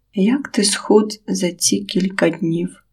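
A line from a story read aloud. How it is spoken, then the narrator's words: Father speaking quietly. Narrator (Ukrainian): Тихо промовив батько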